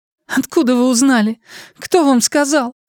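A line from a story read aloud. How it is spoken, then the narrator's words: Rising voice into plaintive sobs. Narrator (Russian): Ее голос, повысившись, перешел в жалобные всхлипывания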